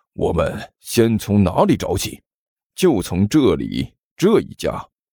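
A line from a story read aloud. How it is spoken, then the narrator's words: Low voice. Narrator (Chinese): 关小雨 低声说道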